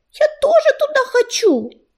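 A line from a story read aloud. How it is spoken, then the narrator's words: Squeaky kitten voice. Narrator (Russian): запищал маленький серый котенок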